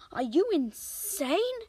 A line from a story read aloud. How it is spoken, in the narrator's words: cried his father